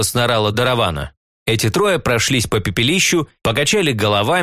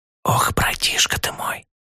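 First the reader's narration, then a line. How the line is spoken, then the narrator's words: Anxious whisper. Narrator (Russian): прошептал я со все возрастающей тревогой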